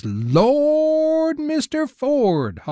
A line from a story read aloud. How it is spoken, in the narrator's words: hollers Mills